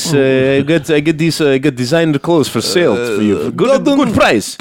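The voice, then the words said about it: Put-on Russian accent. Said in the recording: “my Russian impression”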